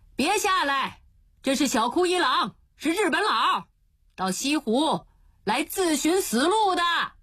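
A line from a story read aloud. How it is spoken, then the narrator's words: Distant shout. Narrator (Chinese): 湖上有人叫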